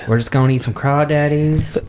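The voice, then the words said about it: Put-on American Southern accent. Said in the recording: “what's with the southern accent?”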